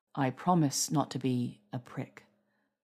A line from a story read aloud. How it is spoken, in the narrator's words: murmurs, savoring it